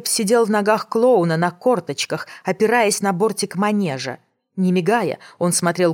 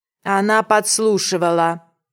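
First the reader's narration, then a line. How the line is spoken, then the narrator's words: Flat, expressionless. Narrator (Russian): невыразительным голосом подтвердил Калеб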